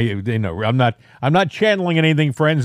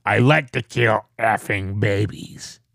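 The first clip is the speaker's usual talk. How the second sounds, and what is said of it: Scary, menacing imitated voice. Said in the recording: “You, you, you actually sound very scary right now ... I'm just imitating.”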